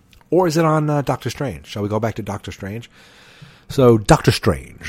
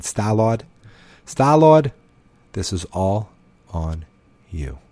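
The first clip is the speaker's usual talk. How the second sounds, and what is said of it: Big Boston accent. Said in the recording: “with just a big Boston accent”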